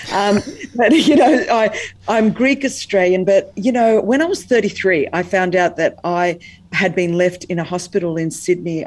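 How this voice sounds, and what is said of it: Australian accent. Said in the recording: “I was born in Sydney, Australia. That's the accent. This is how the Queen wishes that she could speak English.”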